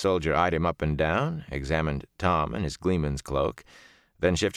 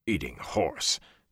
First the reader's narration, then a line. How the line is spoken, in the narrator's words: Tom muttered disgustedly